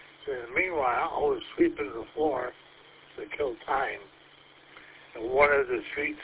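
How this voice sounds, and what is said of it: Usual voice. Nothing is said of it.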